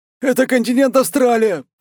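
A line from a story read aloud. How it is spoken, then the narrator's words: Timid babbling. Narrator (Russian): пролепетал он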